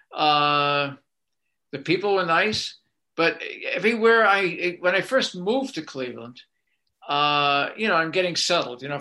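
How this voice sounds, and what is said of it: Boston accent. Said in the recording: “my Boston accent”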